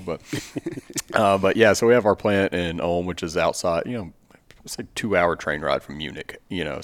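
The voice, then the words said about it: Long American drawl. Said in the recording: “even with my long drawl”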